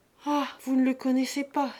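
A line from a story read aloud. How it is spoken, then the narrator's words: Exclaimed. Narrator (French): s'écria Lise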